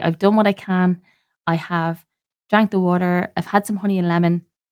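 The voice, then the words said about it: Stuffy, sore-throated voice with cold. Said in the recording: “I am currently smothered with a cold. My throat is a little bit sore. I'm a little bit stuffy... my voice is not too great today”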